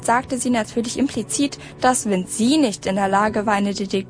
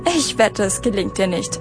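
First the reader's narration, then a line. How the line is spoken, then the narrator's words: Mocking laugh. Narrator (German): spottete Madge und lachte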